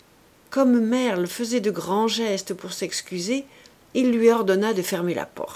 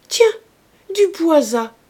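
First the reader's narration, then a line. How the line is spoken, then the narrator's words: Exclaimed. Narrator (French): s'écria Rougon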